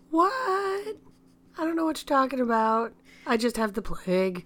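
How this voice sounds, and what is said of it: Scratchy, sick-sounding voice. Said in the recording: “Sicky McSickerson ... Her voice is going to be a little scratchy this episode ... It's my sexy voice.”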